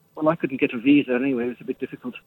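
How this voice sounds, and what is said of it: Unconvincing put-on Pakistani-sounding accent. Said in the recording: “maybe you could have worked on the accent a little bit better, or phoned in using one that you could actually do ... You sounds like you're from Pakistan ... Go on, do it in your real voice”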